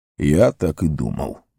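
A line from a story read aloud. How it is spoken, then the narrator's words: Gloomy declaration. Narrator (Russian): мрачно заявил Гэндальф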